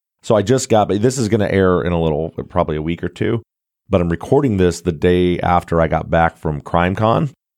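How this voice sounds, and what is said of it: Hoarse, nearly lost voice. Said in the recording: “my voice is really ... I have no voice ... to lose your voice altogether”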